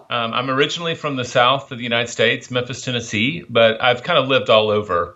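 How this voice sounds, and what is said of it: Mild, pleasant Southern US accent. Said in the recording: “a very exotic, a very mellifluous accent ... a little bit of a southern accent ... not the drawly sort of American southern accent, but it's very pleasant”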